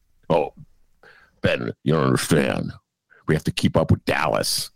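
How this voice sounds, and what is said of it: Put-on voice of a responsible Chicagoan. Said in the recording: “Who's that voice you're doing? ... a combination of like responsible, the kind of people in Chicago”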